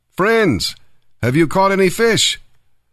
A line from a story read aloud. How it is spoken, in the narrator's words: He called out